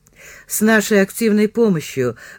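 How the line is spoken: Sad confirmation. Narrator (Russian): грустно подтвердил Балакин

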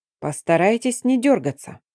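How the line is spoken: Calm, detached request. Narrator (Russian): спокойно и как-то отстраненно попросил некромант

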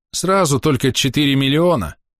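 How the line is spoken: Sighing. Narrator (Russian): глава вздохнул

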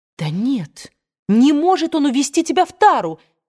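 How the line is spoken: Exclaimed. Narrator (Russian): воскликнула Мелани

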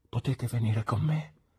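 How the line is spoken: Anxious whisper. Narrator (Italian): chiese con un ansioso bisbiglio

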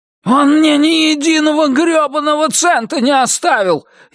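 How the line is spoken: Furious yell. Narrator (Russian): яростно завопил Туз

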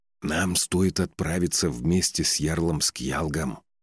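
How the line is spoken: Whispered through teeth. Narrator (Russian): шепотом процедил

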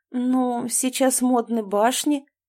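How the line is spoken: Uncertain drawl. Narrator (Russian): неуверенно протянула Анастасия

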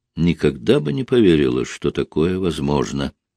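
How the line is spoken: Quiet. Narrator (Russian): тихо сказала она

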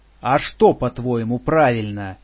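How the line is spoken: Barking. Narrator (Russian): рявкнул он

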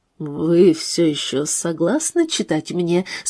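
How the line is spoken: Serious voice. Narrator (Russian): спросил он серьезным голосом

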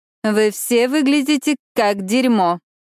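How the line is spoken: Snide remark. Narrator (Russian): ехидно комментирует она

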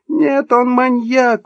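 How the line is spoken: Desperate shriek. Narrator (Russian): взвизгнула Эльвира, отчаянно отбиваясь

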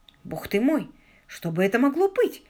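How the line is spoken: Startled, sleepy whisper. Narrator (Russian): прошептала Мэгги, тоже выходящая из сонного забытья

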